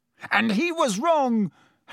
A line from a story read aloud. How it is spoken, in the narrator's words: Harry yelled